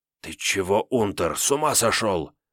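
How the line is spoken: Angry hiss. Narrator (Russian): Зло зашипел один из подошедших пленных, по выправке и поведению, скорее всего, фельдфебель

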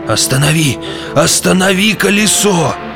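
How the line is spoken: Distant moaning voice. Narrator (Russian): стонал голос где-то высоко в ночи

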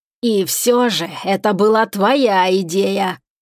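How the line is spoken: Growl. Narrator (Russian): прорычал Шегран

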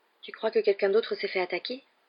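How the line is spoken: Tense question. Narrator (French): demanda Ron d'une voix tendue

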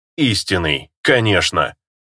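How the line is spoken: Gloating snort. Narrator (Russian): злорадно хмыкнул Дерл

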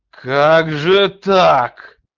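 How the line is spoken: Growl. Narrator (Russian): зарычал Роэрк

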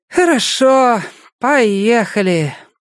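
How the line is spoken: Heavy sigh, resigned. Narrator (Russian): тяжело вздохнув, сказала Мидж

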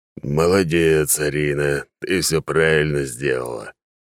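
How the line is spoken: Deep booming. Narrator (Russian): прогудел Эрдокарус

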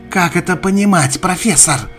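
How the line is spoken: Young woman shouting. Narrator (Russian): крикнула девушка

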